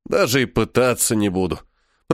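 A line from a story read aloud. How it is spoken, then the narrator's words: Grumble. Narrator (Russian): проворчал Чиф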